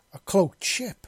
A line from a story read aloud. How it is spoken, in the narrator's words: exclaimed